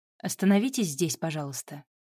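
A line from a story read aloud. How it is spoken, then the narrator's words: Calm request. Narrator (Russian): спокойно попросила Вика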